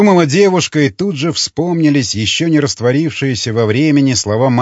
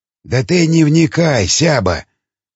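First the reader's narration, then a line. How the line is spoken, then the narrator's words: Mumbled. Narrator (Russian): пробормотал Кожевников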